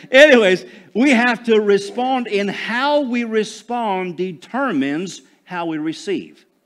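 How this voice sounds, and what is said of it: Southern American twang. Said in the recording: “you got to say it with a little bit of twang ... I just hang around these Southern guys, you know, and I start talking Southern.”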